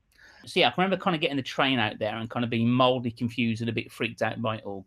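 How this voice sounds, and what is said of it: Birmingham accent. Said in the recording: “I grew up in Birmingham, hence the accent, unfortunately.”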